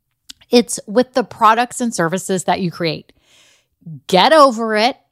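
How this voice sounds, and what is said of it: Raised, louder voice. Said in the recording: “do y'all like how I'm kind of raising my voice a little bit?”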